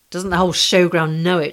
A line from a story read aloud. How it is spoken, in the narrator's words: replied bitterly